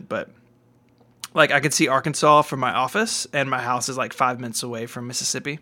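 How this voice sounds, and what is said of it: American Southern accent. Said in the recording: “I'm from the South. I don't know if you guys could tell that from the accent”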